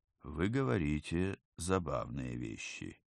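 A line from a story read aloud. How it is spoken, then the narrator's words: Soft. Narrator (Russian): мягко произнес Равнин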